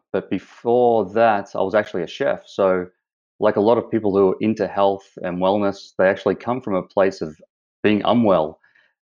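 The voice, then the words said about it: Australian accent. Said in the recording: “you have a nice little accent up there ... as the accent shows, I'm from Australia ... I haven't lost the accent”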